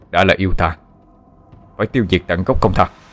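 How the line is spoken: Cold reply. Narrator (Vietnamese): Người thanh niên kia lạnh lùng đáp

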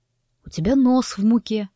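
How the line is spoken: Quiet. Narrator (Russian): тихо проговорил он

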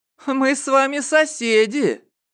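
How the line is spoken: Laughing shout. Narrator (Russian): крикнула она, смеясь

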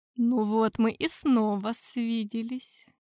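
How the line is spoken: Said tenderly. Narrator (Russian): ласково произнес пан Зависима

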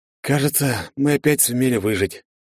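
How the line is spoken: Tired voice. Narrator (Russian): произнес я уставшим голосом

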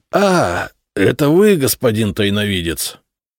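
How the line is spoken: Angry exhale. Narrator (Russian): сердито выдохнул он

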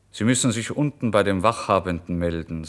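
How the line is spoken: Plain. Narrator (German): sagte der Polizist

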